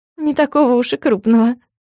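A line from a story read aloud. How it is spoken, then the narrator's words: Giggling. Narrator (Russian): хихикнула я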